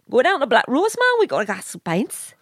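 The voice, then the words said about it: Put-on Newcastle Geordie accent. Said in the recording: “I've got a perfect Newcastle accent ... I can talk in Newcastle, no problem ... I talk in a Newcastle accent”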